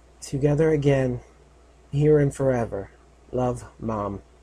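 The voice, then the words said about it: Low, almost whispering voice. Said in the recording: “read in a low voice, almost whispering.”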